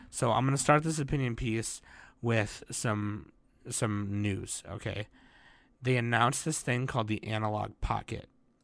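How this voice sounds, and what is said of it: Hoarse voice. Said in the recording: “My voice is getting really hoarse right now because I'm still like got an irritating throat and coughing”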